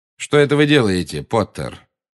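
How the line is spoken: Cold question. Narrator (Russian): холодно, как всегда, спросил Снег

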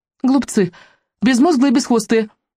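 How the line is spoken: Excited chirping. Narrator (Russian): взволнованно прочирикал он

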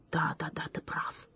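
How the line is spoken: Barely audible mutter. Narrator (Russian): еле слышно пробормотал он

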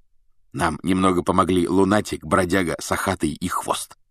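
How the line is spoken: Whispered in ear. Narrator (Russian): шепнул Фред Гарри на ухо

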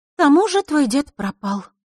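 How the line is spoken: Sighing. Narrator (Russian): вздохнула Лиса

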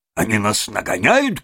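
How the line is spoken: Shouted. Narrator (Russian): крикнул машинист

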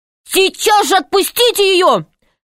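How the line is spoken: Shouting. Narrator (Russian): крикнул Пашка

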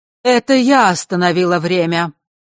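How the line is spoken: Clear strong voice. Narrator (Russian): произнесла она чистым и сильным голосом, никак не вязавшимся с ее дряхлым видом

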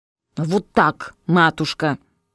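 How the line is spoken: Daughter's grumbled reply. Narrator (Russian): Буркнула в ответ дочка

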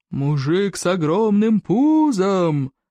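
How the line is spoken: Roaring. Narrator (Russian): проревел всадник

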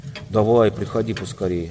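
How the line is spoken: Plain. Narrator (Russian): ответил Дигори

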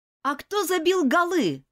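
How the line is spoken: Shouting. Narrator (Russian): выкрикнул Джон

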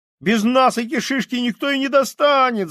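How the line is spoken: Desperate boy's shout. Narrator (Russian): закричал мальчик с отчаянными синими глазами

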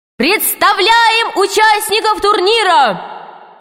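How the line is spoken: Piercing, very loud shout. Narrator (Russian): закричал главный судья таким пронзительным голосом, что его, наверное, было слышно в открытом космосе

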